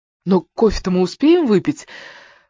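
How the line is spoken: Exclaimed. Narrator (Russian): воскликнул Бернхард

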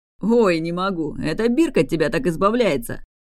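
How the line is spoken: Laughing to tears. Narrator (Russian): Адлар утирал слезы, что катились от хохота

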